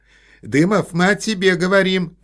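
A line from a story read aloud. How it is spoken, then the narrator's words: Shouted. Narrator (Russian): крикнула она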